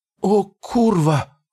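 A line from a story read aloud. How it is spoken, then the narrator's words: Shocked exhaled exclamation. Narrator (Russian): выдохнул он, и его голос был полон шока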